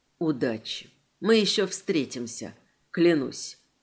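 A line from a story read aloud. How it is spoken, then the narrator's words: Very quiet, barely audible. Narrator (Russian): тихо, так что даже я с трудом разобрала слова, сказал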